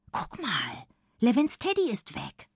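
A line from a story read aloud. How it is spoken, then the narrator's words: Whispering. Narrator (German): wispert sie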